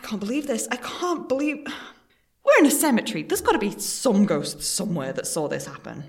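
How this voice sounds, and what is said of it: Usual voice. Nothing is said of it.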